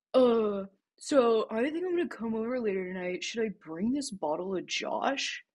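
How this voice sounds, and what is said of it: Impression of a friend. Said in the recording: “your impression of Jake”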